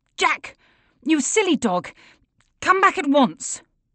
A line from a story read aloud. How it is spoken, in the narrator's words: He shouts